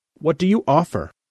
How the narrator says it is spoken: Alna said sharply

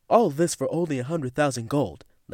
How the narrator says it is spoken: Landis yelled

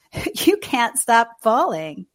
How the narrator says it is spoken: Candy laughed

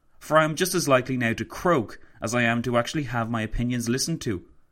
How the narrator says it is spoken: he exclaimed to Roosevelt

